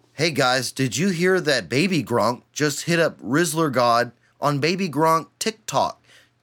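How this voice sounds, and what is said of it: Mock TikTok influencer accent. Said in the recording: “TikTok accent ... that TikTok accent”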